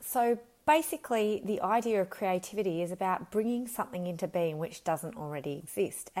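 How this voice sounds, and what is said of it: Slightly croaky voice. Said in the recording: “my voice is a bit croaky today”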